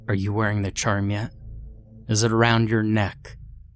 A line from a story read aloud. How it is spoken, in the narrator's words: said calmly